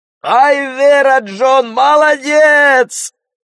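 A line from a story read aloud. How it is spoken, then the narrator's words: Men shouting together. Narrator (Russian): закричали мужики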